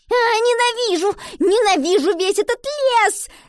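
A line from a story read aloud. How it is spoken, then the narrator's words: Girl screaming. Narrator (Russian): закричала девочка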